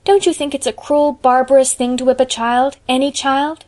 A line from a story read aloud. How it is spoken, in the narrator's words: exclaimed Anne, her face flushing with earnestness